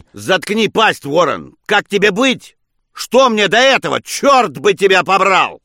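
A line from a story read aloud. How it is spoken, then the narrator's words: Shouting into phone, pleading, cursing. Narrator (Russian): Джеймс, чередуя мольбы с проклятиями, кричал в трубке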